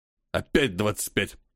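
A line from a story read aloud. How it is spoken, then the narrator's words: Irritated exhale. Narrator (Russian): Раздраженно выдохнул полковник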